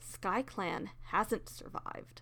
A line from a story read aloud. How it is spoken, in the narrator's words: Scratch muttered darkly